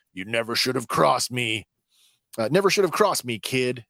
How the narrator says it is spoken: Mako shouts

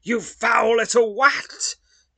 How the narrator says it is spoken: screams

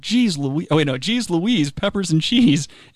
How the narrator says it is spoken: Adam yelled

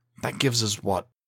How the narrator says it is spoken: Calvin stammered

